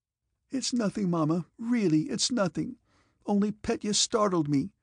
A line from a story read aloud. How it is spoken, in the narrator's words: she said, trying to smile, but her tears still flowed and sobs still choked her